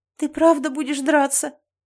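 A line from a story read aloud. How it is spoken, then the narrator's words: Sobbing. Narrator (Russian): Я всхлипнула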